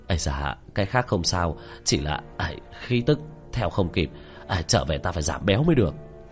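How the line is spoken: Panting, out of breath. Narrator (Vietnamese): miệng đã thở hổn hển nói

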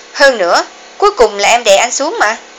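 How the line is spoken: Cold retort. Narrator (Vietnamese): Hà Vĩnh Kỳ lạnh lùng phản bác

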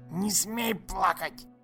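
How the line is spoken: Hissed in face. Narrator (Russian): Прошипел он в самое лицо мальчика

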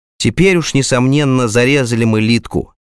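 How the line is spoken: Stern silent thought. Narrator (Russian): мысленно строго добавил

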